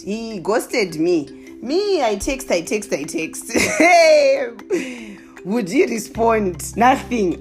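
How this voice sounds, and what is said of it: Zimbabwean accent. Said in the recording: “I'm now back to my Zimbabwean accent.”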